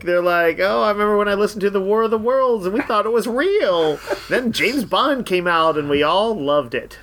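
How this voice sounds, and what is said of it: Imitates an older boomer's voice. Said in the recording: “my imitation of a boomer”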